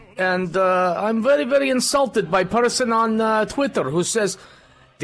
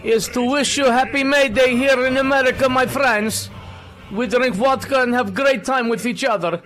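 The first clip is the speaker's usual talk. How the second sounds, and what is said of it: Put-on Russian accent. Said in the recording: “you got to work on your Russian accent ... I do a damn good Russian accent, and it's a Monday. I might be a little bit off”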